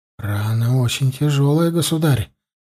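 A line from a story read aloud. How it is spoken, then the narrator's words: Doctor speaking quietly. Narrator (Russian): тихо сказал лекарь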